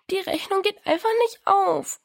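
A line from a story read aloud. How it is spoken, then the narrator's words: Sobbed. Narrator (German): schluchzte Diana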